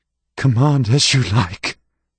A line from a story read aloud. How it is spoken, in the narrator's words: the boy said in a choked voice